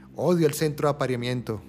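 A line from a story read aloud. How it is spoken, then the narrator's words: Wild man exclaiming. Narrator (Spanish): exclamó el hombre salvaje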